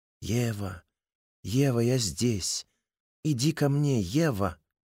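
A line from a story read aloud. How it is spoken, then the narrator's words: Gentle voice. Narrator (Russian): Голос звучит ласково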